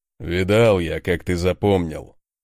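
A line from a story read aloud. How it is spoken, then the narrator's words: Deep bass voice. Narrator (Russian): пробасил Конунг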